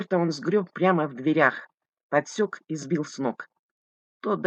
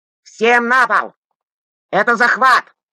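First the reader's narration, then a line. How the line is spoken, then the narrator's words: Yelling. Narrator (Russian): заорал он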